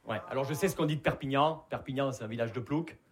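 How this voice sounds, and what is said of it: Southern French Perpignan accent. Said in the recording (French): “Vous l'entendez à mon accent, je viens pas de Paris. Je viens de Perpignan.”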